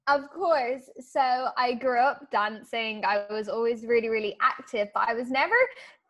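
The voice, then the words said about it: Speaks with a distinctive accent. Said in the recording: “the best accent in the fitness industry ... I just love your accent.”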